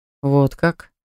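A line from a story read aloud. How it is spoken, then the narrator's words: Slightly mocking question. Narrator (Russian): спросил немного насмешливым тоном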